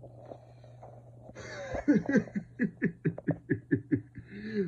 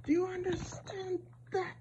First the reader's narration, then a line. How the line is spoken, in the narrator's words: She screams